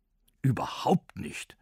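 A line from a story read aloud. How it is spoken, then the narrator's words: Angry reply. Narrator (German): erwiderte Onkel Opossum wütend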